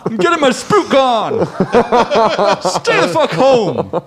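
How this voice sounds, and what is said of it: Gruff suburban dad character voice. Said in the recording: “That's my Thousand Oaks dad voice.”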